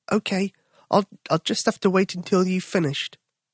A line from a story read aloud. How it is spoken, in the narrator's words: Tom said quietly